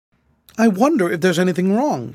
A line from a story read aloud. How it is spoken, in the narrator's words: said, anxiously